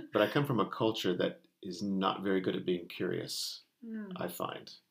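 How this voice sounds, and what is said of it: American accent. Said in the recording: “you can tell from my accent, I'm not from this island ... of America”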